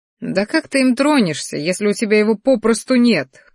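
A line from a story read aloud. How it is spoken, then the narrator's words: Snorting. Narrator (Russian): хмыкнули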